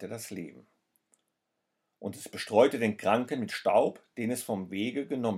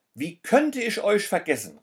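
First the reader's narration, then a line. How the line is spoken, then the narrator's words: Man exclaiming. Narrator (German): rief der Mann aus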